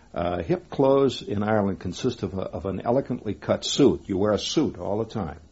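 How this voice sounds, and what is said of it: Obvious American accent. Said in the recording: “I have a very obvious American accent”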